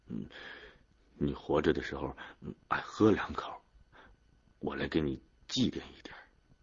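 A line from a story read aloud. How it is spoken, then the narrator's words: Mumbling. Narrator (Chinese): 安锁子嘴里嘟囔着说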